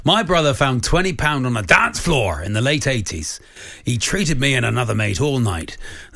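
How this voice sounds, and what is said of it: Put-on Cornish accent. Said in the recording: “I'll do it in his voice... just do it in the Cornish accent... You've gone very Cornwall.”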